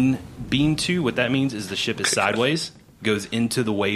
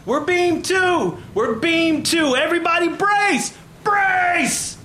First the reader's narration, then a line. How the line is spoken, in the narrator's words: Captain Barnabas from the poop deck yell